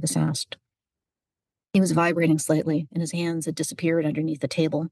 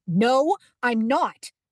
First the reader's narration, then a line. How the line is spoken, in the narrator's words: Megan shouted